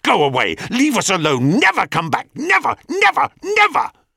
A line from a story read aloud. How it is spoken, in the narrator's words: Narcissus turned with a snarl and hissed at her